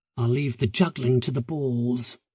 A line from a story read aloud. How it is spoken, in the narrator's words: she muttered